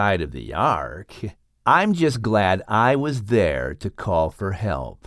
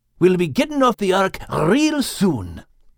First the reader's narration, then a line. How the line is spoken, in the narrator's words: Max said excitedly